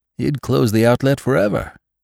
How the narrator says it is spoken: exclaimed Venters

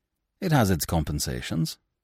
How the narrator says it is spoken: quoth he, in that curious cold tone of his that left one wondering whether he meant or not what he seemed to mean

